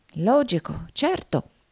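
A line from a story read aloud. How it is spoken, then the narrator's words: Murmured while walking. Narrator (Italian): mormorò Nickleby mentre andava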